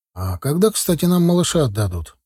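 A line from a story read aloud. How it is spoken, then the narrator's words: Conciliatory. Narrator (Russian): поинтересовался я примирительным тоном у доктора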